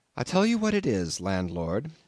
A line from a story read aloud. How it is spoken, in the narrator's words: I said quite calmly